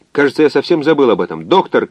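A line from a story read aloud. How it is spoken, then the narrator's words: Shout. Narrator (Russian): крикнул координатор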